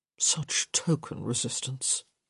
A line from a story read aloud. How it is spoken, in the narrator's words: he murmured